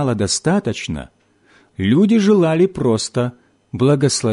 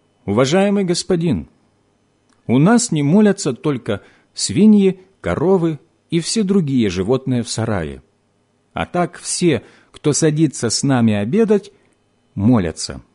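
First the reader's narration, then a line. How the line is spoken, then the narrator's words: Calm reply. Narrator (Russian): Крестьянин спокойно ответил ему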